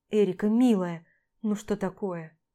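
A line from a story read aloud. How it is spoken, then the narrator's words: Tender mumble. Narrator (Russian): ласково бормочу я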